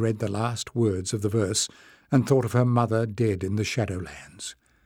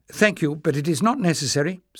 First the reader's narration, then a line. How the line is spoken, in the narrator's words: said Jasmine, hastily